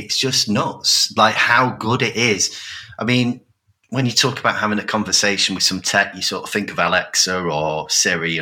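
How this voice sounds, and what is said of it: Rochdale English accent. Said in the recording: “me Rochdale accent”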